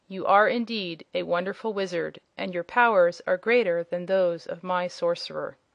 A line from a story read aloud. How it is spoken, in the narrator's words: the prince said, in his cold, calm voice